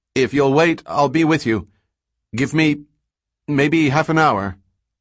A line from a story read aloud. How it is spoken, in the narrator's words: paused, breathing hard, then said, raising his voice to be heard through the door